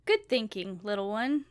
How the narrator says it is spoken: Jordan chuckled

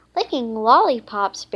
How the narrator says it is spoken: Barry exclaimed

